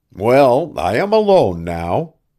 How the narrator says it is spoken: Devant nodded cheerfully

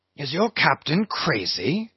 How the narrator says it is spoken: whispering Fadala

